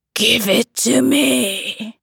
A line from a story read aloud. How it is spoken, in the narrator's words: hissed